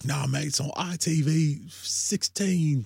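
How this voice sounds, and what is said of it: Poor impression, London-sounding accent. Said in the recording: “This is a terrible James impression. ... You sound like you're from London.”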